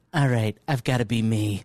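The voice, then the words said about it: Imitates another person's voice. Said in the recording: “Great impression.”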